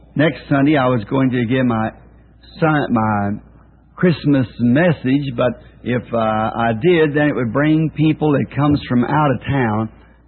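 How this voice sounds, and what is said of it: Hoarse voice. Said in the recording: “bear with me a little bit on my hoarse throat this morning”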